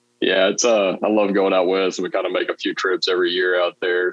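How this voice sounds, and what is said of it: Southern drawl accent. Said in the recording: “I love that accent ... his southern draw ... that draw”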